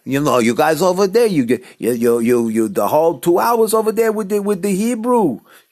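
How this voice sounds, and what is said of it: New York Jewish accent. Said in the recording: “it's kind of a New York Jewish accent. I don't know, it's not so Israeli”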